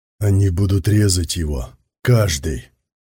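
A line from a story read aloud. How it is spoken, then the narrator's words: Hissed through gritted teeth. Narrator (Russian): Сквозь зубы процедил Сон Дзиюй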